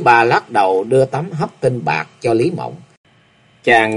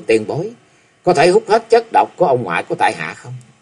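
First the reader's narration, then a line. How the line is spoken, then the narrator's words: Smiling. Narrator (Vietnamese): Chàng mỉm cười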